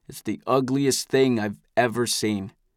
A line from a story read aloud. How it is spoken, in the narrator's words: says in a flat voice